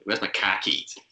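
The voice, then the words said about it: Put-on Boston accent. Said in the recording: “can you just do a Boston accent? ... that's how you say khakis in the Boston accent.”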